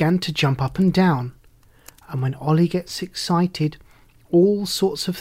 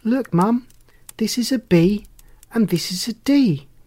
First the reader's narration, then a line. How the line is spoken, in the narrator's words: James exclaimed